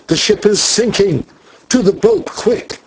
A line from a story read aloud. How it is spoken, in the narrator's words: he cried